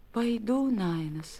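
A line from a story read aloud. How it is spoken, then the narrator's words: Barely audible reply. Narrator (Russian): чуть слышно ответила Некия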